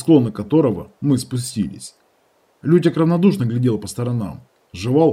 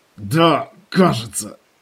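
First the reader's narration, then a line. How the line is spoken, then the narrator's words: Hoarse wheeze. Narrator (Russian): просипел я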